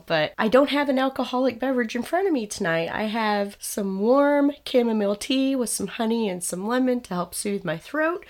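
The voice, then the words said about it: Slightly hoarse voice. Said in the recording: “I'm a little bit hoarse still, as I'm sure everybody's going to be able to tell”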